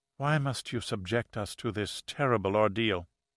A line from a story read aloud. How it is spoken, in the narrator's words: Maria Wolf, the sister sitting immediately to Carl's left, leaned over and whispered